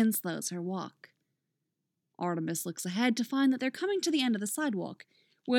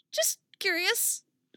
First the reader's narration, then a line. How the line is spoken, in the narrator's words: she squeaks a little too quickly